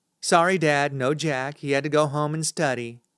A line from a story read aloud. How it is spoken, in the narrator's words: says Avery